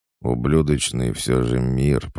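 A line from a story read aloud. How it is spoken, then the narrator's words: Through gritted teeth. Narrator (Russian): процедил Албаудун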